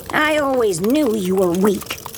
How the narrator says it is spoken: says

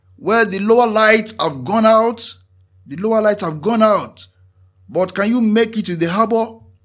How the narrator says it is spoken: the lighthouse keeper responded, shouting over the noise of the waves

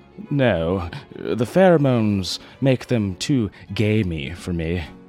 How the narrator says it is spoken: Worthington sighed

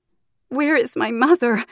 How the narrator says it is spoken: Anquan sobbed

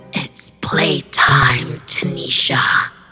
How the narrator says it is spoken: She then croaked

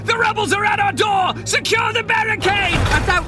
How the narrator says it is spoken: voices shout

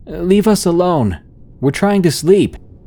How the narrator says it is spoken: I yelled out

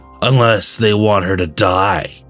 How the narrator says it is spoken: he sneered

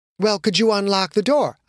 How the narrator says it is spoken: I asked him

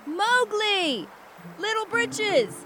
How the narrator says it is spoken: Bagheera and Baloo stood across the river shouting

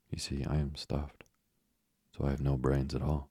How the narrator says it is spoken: he answered sadly

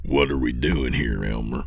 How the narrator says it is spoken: Lewis said in a low voice

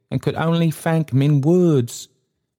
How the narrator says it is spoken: faltered Trotty

